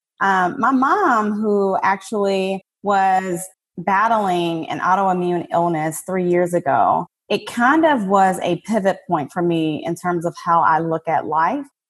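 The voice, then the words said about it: Southern US accent. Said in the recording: “I'm certain you can probably hear this good old Southern accent.”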